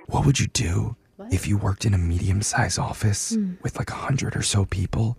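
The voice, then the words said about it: Whispering. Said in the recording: “Why are you whispering? ... I still don't know why we're whispering.”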